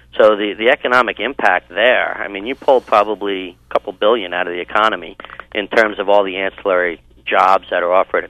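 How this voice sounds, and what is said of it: Mild East Coast New York accent. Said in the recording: “I hear somewhat of an East Coast accent. ... You take the kid from New York, but you can't take New York from the kid.”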